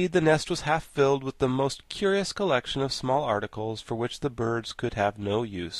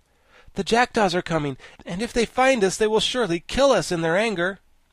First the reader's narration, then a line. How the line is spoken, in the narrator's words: Tip exclaimed